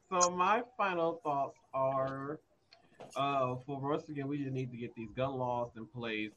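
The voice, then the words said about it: Speaking too loudly. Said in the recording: “You're talking too loud.”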